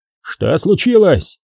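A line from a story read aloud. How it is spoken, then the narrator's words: Shouted almost in chorus. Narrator (Russian): чуть ли не хором заорали остальные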